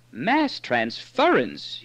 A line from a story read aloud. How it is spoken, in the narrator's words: he cried